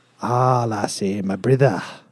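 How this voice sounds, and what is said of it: Put-on Scottish accent. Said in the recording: “Now say it with a Scottish accent.”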